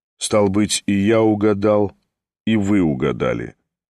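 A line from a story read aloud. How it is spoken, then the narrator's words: Calm, even tone. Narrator (Russian): спокойным тоном продолжал Ставрогин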